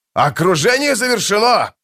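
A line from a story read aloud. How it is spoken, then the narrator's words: Shouting. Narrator (Russian): закричал Пормкваль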